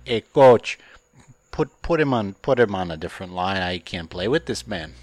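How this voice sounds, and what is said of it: Put-on Canadian accent. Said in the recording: “is that your Canadian accent? You're doing impressions now?”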